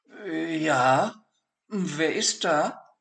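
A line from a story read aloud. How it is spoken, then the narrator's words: Hesitant question. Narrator (German): fragte zögernd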